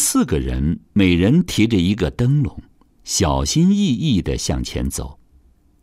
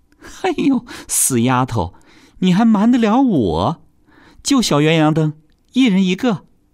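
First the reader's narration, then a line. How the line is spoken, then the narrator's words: Laughing. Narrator (Chinese): 三太太笑起来了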